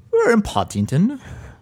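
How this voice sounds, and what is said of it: Bad put-on English accent. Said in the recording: “That was the worst English accent ever... It's really bad.”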